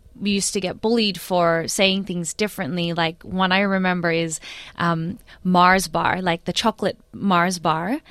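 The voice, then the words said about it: Slight mixed American-Filipino accent. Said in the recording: “I've got a slight American accent and Filipino accent.”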